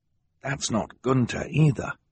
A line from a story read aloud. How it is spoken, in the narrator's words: Klaus whispered